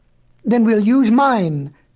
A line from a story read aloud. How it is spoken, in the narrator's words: cried the beloved Betsy